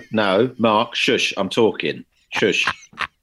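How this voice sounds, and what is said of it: Put-on North London accent. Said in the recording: “It talks like that. ... Which accent is that? ... It's sort of North London. ... I grew up around a lot of London accents.”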